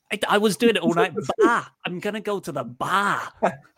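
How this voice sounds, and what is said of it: Put-on thick Boston accent. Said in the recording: “walk around the house in a thick Boston accent”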